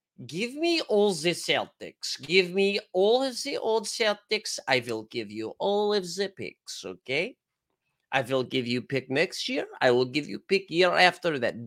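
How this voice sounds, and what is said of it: Put-on Russian accent, slipping. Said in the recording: “can I do a Russian accent? ... That accent was kind of, we were vibing for a little bit, right off the fucking rails”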